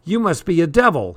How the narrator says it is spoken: he cried out

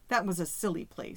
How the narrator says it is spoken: said Yvonne

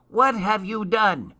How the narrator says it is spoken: shouted Crooked Root angrily

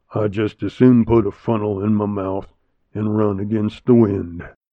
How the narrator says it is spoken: the waddy grumbled

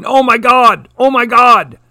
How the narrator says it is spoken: Now the humans from the office were yelling

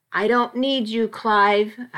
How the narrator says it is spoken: shouted

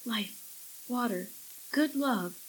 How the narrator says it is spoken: she whispered to herself

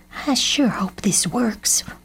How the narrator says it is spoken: whispered Mamo

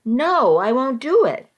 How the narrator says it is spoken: I somehow summoned the strength to yell

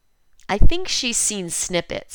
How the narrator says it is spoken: he says with a laugh

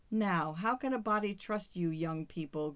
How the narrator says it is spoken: good-naturedly exclaimed Pelagia to her guest

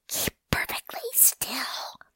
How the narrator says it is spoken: Fox hissed in Rabbit's ear

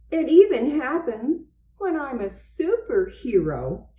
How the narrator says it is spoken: he exclaimed

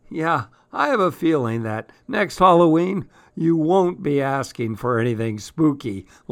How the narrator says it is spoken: laughed Dad

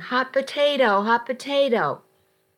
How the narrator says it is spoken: the kids yelling

